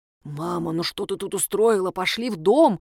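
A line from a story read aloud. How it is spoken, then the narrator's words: Whisper. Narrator (Russian): зашептал он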